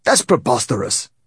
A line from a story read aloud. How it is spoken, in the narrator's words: exclaimed Igor, expelling saliva as he spoke